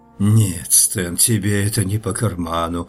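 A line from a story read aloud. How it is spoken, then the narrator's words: Resigned sigh. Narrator (Russian): вздохнул я наконец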